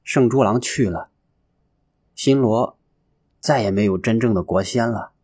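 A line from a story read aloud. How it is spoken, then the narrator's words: Long sigh, listless. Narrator (Chinese): 乔觉郎没弄明白怎么回事，长长的叹了一口气，懒懒的说道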